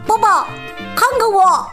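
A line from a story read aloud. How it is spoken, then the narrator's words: Shout. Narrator (Chinese): 蒂姆喊道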